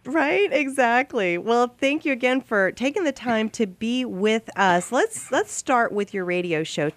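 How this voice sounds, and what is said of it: Hoarse voice. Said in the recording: “You can tell I'm still a little bit hoarse from being so sick”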